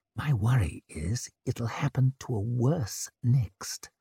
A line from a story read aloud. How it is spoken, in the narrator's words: whispered